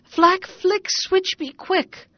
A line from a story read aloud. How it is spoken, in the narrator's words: he cried